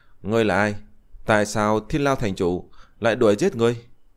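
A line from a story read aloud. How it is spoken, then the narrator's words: Smiling young woman asking. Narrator (Vietnamese): Thiếu nữ áo trắng mỉm cười hỏi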